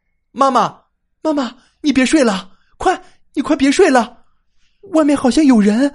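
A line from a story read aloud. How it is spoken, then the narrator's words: Urgent shouting. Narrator (Chinese): 小泽立马转过身去，对着房门喊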